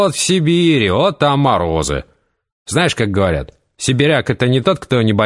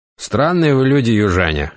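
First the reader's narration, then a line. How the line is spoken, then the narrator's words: Snorting. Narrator (Russian): хмыкнул Матвей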